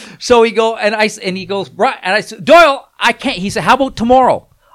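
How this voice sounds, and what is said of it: Usual voice. Nothing is said of it.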